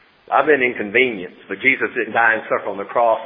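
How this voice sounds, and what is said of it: Usual voice. Nothing is said of it.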